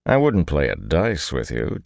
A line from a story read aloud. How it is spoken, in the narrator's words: Tom said dryly